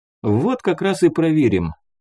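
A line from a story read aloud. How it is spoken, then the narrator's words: Promising. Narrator (Russian): пообещал нам, завершая свои объяснения Муха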